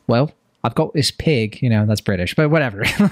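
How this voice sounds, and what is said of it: Weak put-on Australian accent. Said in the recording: “I can't do an Australian accent very well”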